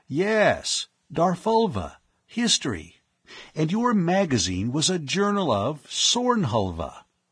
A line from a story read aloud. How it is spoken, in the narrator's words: Penrose exclaimed